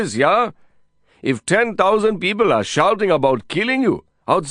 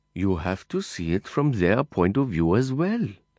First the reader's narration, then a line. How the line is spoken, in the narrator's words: Cliff added softly